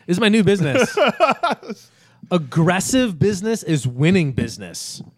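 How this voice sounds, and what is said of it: Smash TV announcer impression. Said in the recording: “I remember the announcer from Smash TV... so that's what I'm mimicking with my new business voice.”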